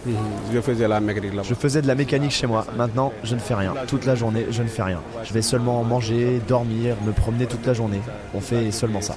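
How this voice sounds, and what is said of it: Very thick accent. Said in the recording (French): “un accent à couper au couteau”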